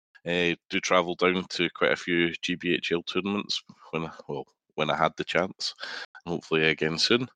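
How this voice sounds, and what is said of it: Scottish accent. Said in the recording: “You can probably tell from my accent. I'm based in Scotland”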